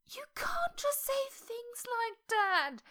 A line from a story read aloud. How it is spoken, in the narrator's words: he wailed